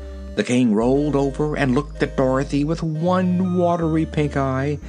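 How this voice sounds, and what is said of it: Usual voice. Nothing is said of it.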